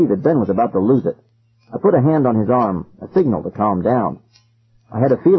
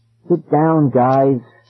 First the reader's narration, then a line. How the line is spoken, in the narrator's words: pleaded again